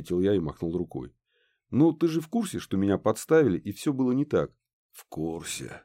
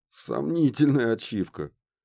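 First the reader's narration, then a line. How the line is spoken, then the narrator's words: Snorting. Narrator (Russian): хмыкнул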